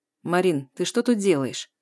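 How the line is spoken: Cold question. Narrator (Russian): Холодно интересуется Сизов

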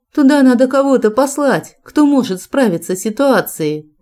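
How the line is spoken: Alarmed exclamation. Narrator (Russian): воскликнула, холодея

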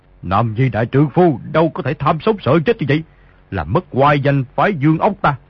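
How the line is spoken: Angry. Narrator (Vietnamese): Đạo sĩ tức giận nói

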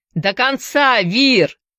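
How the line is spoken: Shouted. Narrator (Russian): закричал Шоу

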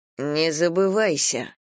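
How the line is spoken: Hissed through teeth. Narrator (Russian): процедила я

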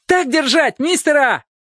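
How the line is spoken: Young boy shouting. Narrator (Russian): Какой-то парнишка закричал

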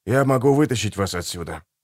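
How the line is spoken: Whisper. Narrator (Russian): прошептал он

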